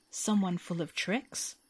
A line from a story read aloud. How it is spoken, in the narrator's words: remarked the otter uneasily